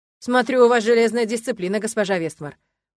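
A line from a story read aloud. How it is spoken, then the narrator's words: Mocking remark. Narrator (Russian): насмешливо заметил градоначальник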